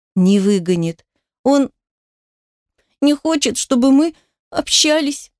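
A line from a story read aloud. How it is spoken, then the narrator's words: Child sobbing. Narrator (Russian): всхлипывал ребенок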